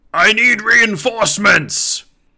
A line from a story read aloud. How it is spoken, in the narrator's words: he kind of yells it